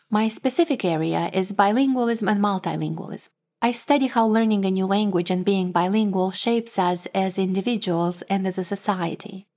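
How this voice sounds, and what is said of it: Moldovan-accented English. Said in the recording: “my accent, I am originally from Moldova ... I grew up speaking Romanian at home and Russian”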